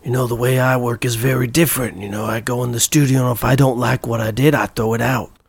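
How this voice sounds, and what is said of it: Imitates a rock star's voice. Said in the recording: “my impression from last week ... legendary New Jersey rock star Rick Springfield”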